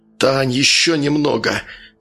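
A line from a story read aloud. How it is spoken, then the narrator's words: Hoarse whisper. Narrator (Russian): хрипло прошептал Евгений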